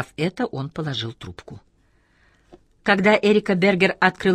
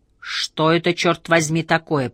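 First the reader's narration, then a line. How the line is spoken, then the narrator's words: Roared. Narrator (Russian): проревел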